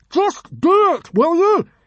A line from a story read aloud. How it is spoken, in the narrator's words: yelled Hiccup